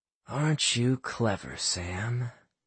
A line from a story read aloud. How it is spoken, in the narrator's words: Drake whispered